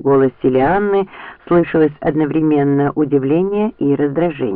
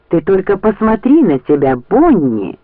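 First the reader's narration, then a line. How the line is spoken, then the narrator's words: Exclaimed. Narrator (Russian): воскликнула она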